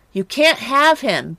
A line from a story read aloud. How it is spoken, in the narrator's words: Betty screamed